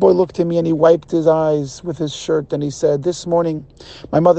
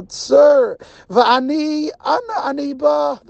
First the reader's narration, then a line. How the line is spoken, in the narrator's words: the boy cried out from the depth of his heart